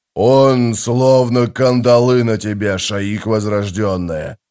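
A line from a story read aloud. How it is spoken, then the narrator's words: Growl. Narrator (Russian): прорычал Таблакай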